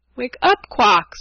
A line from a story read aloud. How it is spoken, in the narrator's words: cried